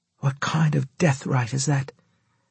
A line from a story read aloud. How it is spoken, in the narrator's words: Della asked softly